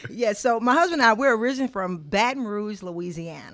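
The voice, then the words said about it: Southern US (Louisiana) accent. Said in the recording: “We can tell from your accent that you ain't from here ... I'm about sick of this accent giving me away here.”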